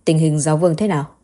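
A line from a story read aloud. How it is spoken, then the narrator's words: Cold question. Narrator (Vietnamese): hắn lạnh lùng hỏi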